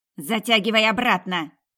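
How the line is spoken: Harsh bark. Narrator (Russian): рявкнула она

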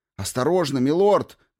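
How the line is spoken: Shout. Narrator (Russian): крикнул

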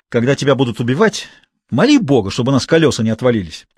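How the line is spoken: Angry. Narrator (Russian): сердито сказал он

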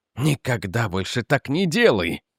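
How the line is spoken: Forced out. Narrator (Russian): выдавил Рик

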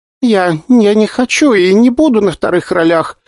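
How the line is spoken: Sobbing young woman. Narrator (Russian): всхлипывала девушка

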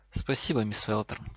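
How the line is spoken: Quiet. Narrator (Russian): тихо сказал Снейп

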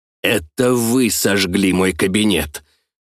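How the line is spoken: Hissed. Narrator (Russian): прошипел Жабокритский

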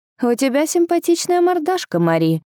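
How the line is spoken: Snide. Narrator (Russian): ехидно продолжил он

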